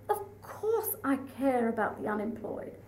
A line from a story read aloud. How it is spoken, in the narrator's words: the Prime Minister, who would frequently purr